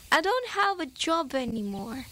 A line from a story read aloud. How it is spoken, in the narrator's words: They both laughed and Helen said